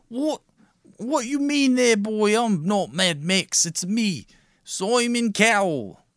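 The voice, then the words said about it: Put-on Cockney accent, poor imitation. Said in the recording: “Simon Cowell has a much more posh accent than that. You're doing like a Cockney. ... That's not even close.”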